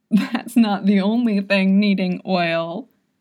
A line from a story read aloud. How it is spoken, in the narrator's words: Yod cackled